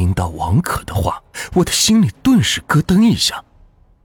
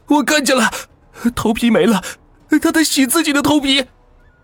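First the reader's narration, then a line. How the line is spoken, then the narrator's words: Shouting. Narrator (Chinese): 王可放声大叫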